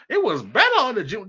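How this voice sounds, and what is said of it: Thomas Sowell impression. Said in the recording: “in my Thomas Sowell voice.”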